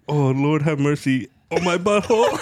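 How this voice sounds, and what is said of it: Put-on foreign accent voice. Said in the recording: “It had to do with someone's nationality and then a voice. ... The accent.”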